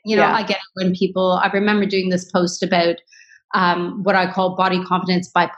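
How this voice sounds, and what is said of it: Usual voice. Nothing is said of it.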